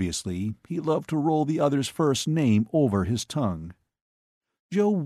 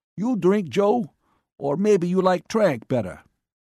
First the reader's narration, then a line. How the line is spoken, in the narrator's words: Max said happily